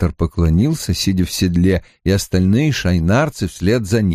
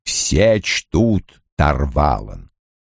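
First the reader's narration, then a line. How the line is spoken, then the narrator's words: Plain. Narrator (Russian): сказал Лойл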